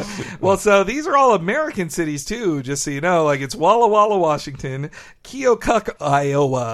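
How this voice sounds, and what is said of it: Usual voice. Nothing is said of it.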